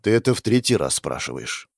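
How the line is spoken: Tired sigh, man. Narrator (Russian): вздохнул уставший мужчина

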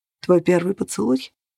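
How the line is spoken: Dull muffled voice. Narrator (Russian): глухо выговорил Грегор

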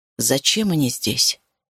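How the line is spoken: Quiet question. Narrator (Russian): тихо спросил я

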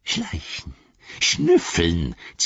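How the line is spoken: Hissing. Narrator (German): zischte er

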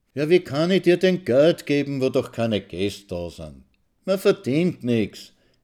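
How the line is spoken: Sweet smiling old woman. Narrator (German): lächelt die Alte mit demselben süßen, fixierten Lächeln

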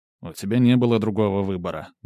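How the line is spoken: Grumbling. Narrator (Russian): буркнул Корут

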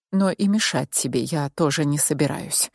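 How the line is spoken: Whisper in ear. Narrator (Russian): прошептал на ухо

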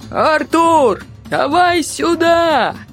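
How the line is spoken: Shouting. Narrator (Russian): кричал Помпилиус

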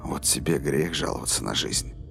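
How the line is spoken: Whisper. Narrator (Russian): прошептал Роланд

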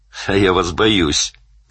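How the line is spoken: Shouting. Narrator (Russian): крикнул Данил

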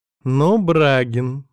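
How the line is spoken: Cheerful. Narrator (Russian): весело мотает головой Ирка

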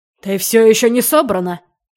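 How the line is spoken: Barking. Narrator (Russian): рявкнул он

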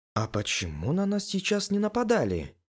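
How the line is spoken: Quiet question. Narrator (Russian): спросила тихо сова

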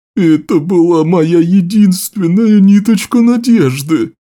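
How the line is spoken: Wizard sobbing. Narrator (Russian): Плечи волшебника вздрагивали от рыданий

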